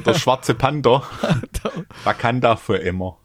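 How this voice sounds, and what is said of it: Put-on Swabian dialect. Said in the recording (German): “Kannst du es auf Schwäbisch sagen?”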